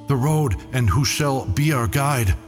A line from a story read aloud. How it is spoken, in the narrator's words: in countless voices cried the host